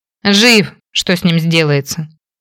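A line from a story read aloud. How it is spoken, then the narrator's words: Amused snort. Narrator (Russian): Хмыкнул Мэтью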